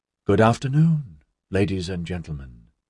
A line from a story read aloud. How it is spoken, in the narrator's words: the sentient intelligence said smoothly